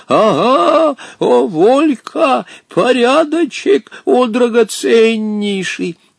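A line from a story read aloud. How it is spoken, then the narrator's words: Wildly triumphant laughing. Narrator (Russian): что-то порывался спеть и хохотал при этом с таким диким торжеством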